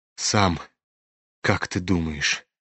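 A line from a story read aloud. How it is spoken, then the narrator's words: Sad question. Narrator (Russian): переспросил князь, грустно смотря на Рогожина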